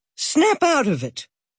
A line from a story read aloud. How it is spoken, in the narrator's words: shouted